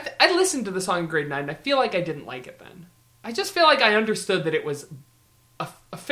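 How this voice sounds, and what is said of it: Usual voice. Nothing is said of it.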